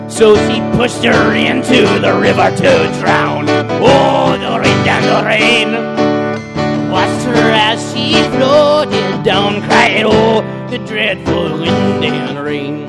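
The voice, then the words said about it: Sung in a Scottish accent. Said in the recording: “I used a Scottish accent there, not an Irish one”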